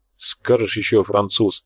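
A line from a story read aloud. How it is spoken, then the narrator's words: Grumble. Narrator (Russian): буркнул Тхар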